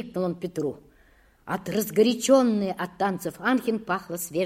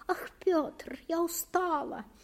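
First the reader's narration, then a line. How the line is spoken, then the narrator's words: Even higher-pitched moan. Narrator (Russian): еще тоньше простонала она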